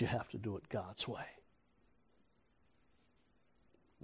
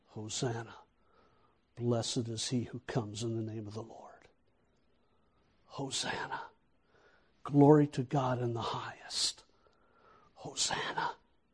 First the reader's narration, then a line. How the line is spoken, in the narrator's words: the crowd that cries